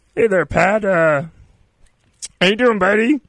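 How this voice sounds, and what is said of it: Bad Pat Mahomes impression, Kermit-like. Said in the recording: “my Pat impression ... It's just an angry, not even angry. It's a really crappy Kermit the Frog. ... it's still so bad”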